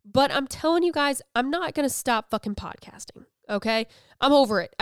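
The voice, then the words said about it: Slightly nasal, congested voice. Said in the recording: “it's like then affecting my voice just a little bit. I sound just nasally enough.”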